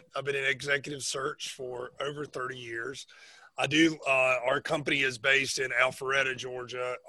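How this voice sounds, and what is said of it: North Carolina Southern accent. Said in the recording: “I'm actually from North Carolina, if you can't recognize the accent.”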